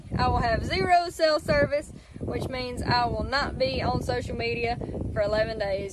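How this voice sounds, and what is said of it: Strong Southern hillbilly accent. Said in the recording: “her accent's... Almost too much... that's just a little too much... It's too hillbilly”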